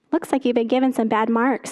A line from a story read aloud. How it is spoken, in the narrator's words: said the maker